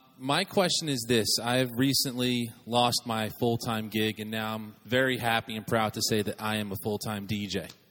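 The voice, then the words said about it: New Jersey accent. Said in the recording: “Originally from Jersey, in case anyone's wondering the accent.”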